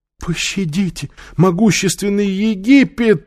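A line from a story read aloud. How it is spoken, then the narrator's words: Whimpering. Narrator (Russian): захныкал Иштар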